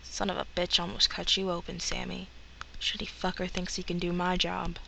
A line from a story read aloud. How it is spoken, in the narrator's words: muttering